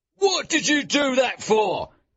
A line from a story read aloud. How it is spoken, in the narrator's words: he shouted at Wilde